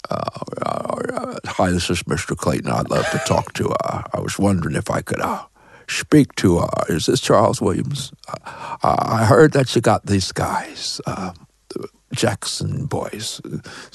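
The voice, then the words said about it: Imitates another person's voice. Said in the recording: “a really good Jimmy Stewart impersonation”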